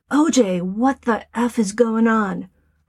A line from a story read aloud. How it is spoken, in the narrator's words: Nicole shouts